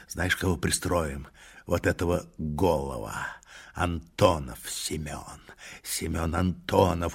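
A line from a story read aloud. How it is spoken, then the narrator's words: Rough unclear voice. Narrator (Russian): продолжал Тугай нечистым голосом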